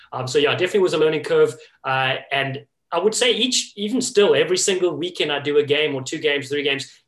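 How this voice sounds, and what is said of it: Speaker's own accent. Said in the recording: “an audience that is obviously not used to my accent”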